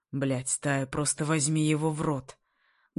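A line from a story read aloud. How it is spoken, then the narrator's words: Muffled, creaky voice. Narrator (Russian): Глухо, скриплыми нотками говорит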